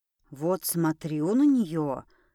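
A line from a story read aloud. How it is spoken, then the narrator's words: Quiet female gnome. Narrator (Russian): тихо говорила гномиха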